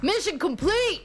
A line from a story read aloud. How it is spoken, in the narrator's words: while we were making love, he screamed